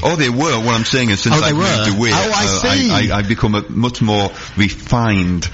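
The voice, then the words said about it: Sunderland Geordie-style English accent. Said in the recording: “that accent's a bit of a giveaway that you're not an Essex boy ... My hometown is Sunderland ... post Geordie ... I have my twang”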